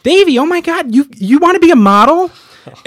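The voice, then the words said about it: Imitation of a woman's voice. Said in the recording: “that's actually a pretty good impression.”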